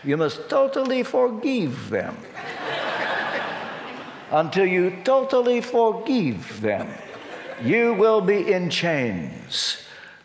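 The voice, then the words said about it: Imitated Romanian accent. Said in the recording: “I can hear him now in his Romanian accent.”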